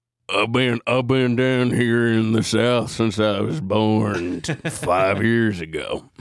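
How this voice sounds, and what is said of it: Put-on Southern accent. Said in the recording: “there's much more of a Southern accent going on”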